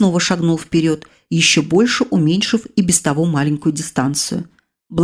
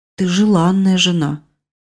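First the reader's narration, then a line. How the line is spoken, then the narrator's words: Reluctantly forced out. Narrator (Russian): Собеседник все-таки выдавил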